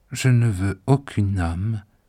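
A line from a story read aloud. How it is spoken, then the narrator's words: Soft, defensive reply. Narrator (French): me répondit-il doucement, et peut-être pour se disculper d'avance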